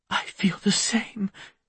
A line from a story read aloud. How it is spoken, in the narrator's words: she whispered